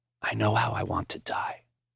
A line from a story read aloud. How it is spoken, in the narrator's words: Finally, in a whisper, he said